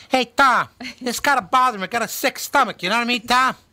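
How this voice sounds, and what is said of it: High squeaky chipmunk-like voice. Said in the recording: “in a chipmunk tone ... He sounded like Joe Pesci”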